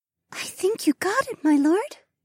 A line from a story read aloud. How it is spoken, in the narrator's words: Mariah breathed